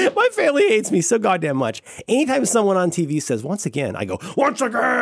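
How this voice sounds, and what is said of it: Usual voice. Nothing is said of it.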